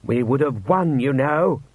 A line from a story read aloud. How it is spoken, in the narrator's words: growled Rust